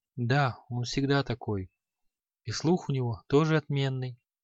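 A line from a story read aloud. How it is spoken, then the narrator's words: Barely audible whisper. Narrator (Russian): Еле слышно прошептал Креол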